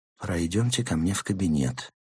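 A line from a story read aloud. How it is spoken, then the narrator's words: Quiet suggestion. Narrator (Russian): тихо предложил он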